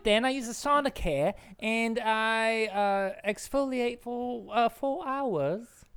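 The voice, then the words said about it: Put-on Australian accent. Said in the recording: “I can't quite tell your accent... Australian, dear... Ms. Kidman”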